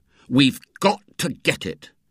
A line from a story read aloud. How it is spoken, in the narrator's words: said Ginger sternly